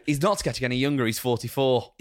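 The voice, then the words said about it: Attempted Welsh accent. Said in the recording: “I'm not going to do the Welsh accent... Go on, have a go... Don't do the Welsh accent... Don't try it again”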